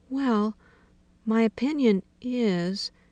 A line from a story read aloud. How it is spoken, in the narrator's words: she said timidly